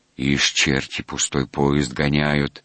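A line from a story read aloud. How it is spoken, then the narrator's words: Angry grumble. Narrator (Russian): сердито проворчал Мухин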